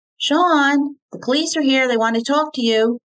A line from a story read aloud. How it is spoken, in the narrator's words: Terry called out